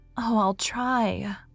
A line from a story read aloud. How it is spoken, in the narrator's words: sighed Mary